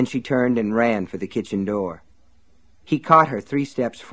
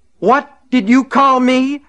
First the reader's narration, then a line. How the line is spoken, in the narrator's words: he screamed